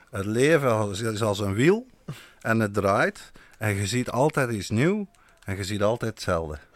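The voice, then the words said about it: Put-on Flemish accent. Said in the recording (Dutch): “met een mooi Vlaams accent dan uitspreken? ... ik zal het nog een keer doen op zijn Vlaams”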